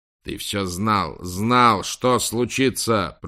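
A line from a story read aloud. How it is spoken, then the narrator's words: Growling, bodyguard. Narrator (Russian): прорычал телохранитель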